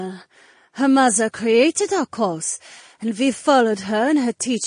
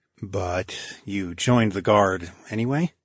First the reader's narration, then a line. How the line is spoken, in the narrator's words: I asked under my breath